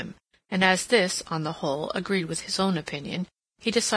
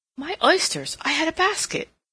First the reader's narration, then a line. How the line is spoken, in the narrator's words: she exclaimed